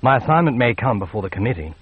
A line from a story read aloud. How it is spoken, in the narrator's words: he said flatly